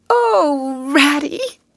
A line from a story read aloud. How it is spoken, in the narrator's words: he cried dismally